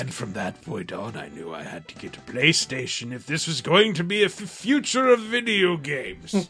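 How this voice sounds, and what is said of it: Theatrical Shakespearean acting voice. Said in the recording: “Acting! ... Why did you go Shakespeare like me? ... It's just fun to do this voice.”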